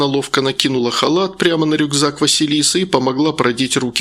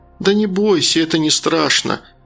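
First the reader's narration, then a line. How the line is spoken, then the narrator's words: Gentle, affectionate. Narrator (Russian): ласково сказала Диана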